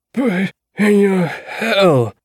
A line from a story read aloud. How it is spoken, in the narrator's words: Percy said in his rough, dying voice